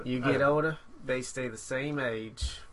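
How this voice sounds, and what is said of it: Matthew McConaughey impression. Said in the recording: “That was a great impression... Matthew McConaughey.”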